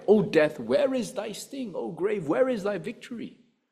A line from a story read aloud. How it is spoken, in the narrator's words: Paul cried